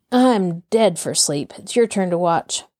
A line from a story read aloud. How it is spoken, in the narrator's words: Both men presently fell to yawning, and Injun Joe said